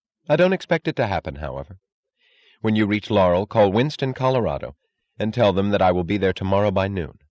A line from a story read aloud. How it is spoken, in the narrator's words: said firmly